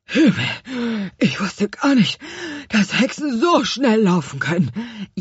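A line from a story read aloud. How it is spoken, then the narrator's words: Gasping. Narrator (German): japste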